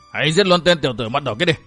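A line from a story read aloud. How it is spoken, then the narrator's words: Loud shouted command. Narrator (Vietnamese): Một tên hổ pháp quát lớn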